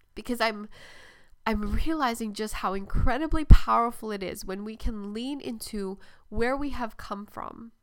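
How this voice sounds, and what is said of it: Emotional, choked-up speech. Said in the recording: “I'm getting emotional”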